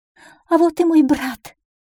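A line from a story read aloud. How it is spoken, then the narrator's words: Charming girl exclaiming. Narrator (Russian): воскликнула очаровашка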